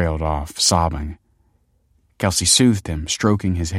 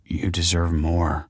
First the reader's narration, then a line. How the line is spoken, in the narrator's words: whispered Michael